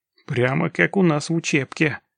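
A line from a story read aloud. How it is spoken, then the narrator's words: Angry, through teeth. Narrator (Russian): процедил Локис с нескрываемой злостью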